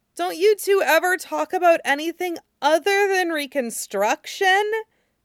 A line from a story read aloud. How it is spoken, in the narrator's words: Nie Huaisang moaned, his head under his hands